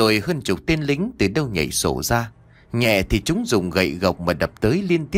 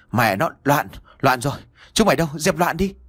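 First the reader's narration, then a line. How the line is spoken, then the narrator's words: Panicked loud shout. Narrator (Vietnamese): Ông Nghị hơi có chút hoảng loạn, miệng vẫn thét lớn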